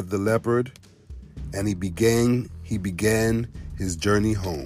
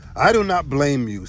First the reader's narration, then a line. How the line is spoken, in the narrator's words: said Thunder